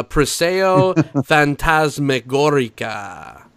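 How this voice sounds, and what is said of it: Bad attempt at foreign accent. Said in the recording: “Worst accent ever.”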